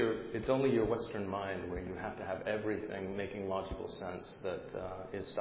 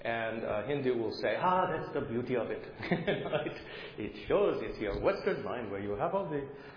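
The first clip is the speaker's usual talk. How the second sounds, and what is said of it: Put-on Indian accent. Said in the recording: “I'll stop doing the Indian accent, I'm sorry.”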